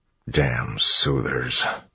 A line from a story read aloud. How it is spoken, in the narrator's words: Clubs muttered